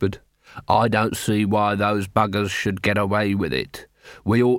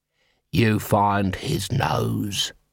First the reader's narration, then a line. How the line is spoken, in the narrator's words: he hissed